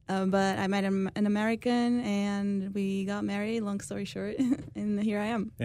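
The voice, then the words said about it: Portuguese-accented English. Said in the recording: “Is that a Blaine accent that ... has? ... No, so I'm actually from Portugal.”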